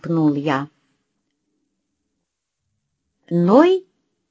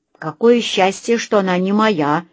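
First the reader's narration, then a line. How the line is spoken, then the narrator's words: Grumbled. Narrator (Russian): бурчала Лена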